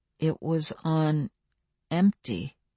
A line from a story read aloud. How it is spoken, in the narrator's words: Daniel said slowly